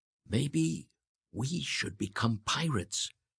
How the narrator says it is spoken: Edgar whispered to his brother

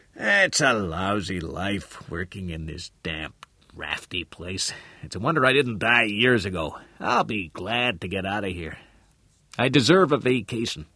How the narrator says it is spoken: the old man mumbled

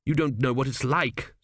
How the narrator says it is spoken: said Tepic

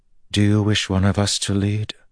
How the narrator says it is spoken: Moraine said hesitantly

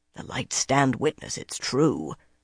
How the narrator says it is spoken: a grizzled carter muttered

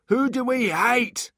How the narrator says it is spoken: shouted one

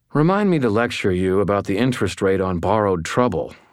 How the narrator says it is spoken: I said

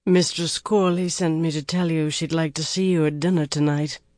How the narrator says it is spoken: the blue-eyed hawk said in a slow Shonchan drawl

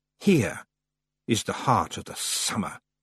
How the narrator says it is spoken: hissed the voice of the summer lady

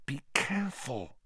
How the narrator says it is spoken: hissed Hermione

